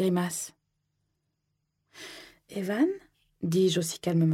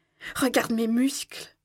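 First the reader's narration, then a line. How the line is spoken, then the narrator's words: Exclaims. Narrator (French): s'écrie Evan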